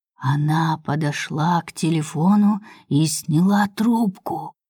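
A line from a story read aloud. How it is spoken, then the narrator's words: Ominous voice. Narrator (Russian): зловещим голосом продолжает Светка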